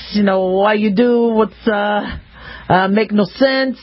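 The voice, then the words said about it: Imitated Israeli accent. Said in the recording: “My father spoke with an accent. He was from Israel. So you would talk like this”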